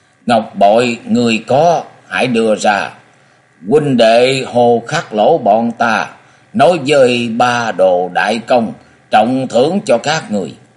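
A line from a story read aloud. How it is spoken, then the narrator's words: Stiff foreign-accented speech. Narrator (Vietnamese): với giọng tiếng Hán cứng nhắc và nói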